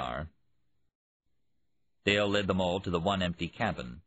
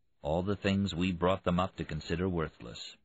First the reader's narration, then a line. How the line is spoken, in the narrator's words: Priest said quietly